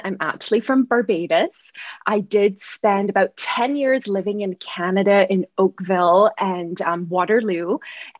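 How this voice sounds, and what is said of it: Barbadian accent, slightly Canadian-sounding. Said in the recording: “that gorgeous accent ... it does sound a little Canadian”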